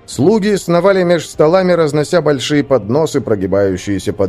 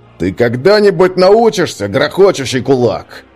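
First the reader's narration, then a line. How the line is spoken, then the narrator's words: Barked. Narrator (Russian): рявкнул Свен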